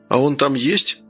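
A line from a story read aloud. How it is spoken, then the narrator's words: Muttered. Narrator (Russian): пробормотал Гордей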